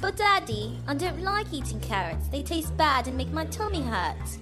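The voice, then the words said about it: Child voice with English accent. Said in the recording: “Why does your son have an English accent?”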